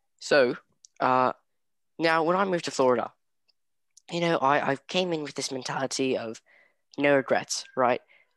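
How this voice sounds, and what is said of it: Put-on British or Australian accent. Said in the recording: “We'll throw in a British accent just to set the mood ... changing accents ... I'm slipping into Australian again”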